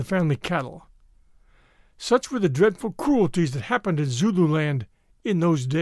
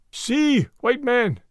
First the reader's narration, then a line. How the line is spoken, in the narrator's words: he shouted